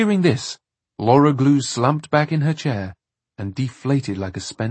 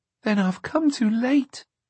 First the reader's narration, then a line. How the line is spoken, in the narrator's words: she said mournfully